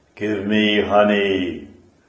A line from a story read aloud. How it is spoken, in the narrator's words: a voice rumbling from the clouds commanded